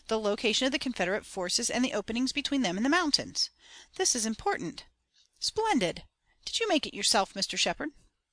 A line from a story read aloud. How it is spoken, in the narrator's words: exclaimed